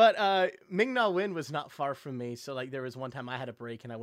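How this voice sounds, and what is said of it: Usual voice. Nothing is said of it.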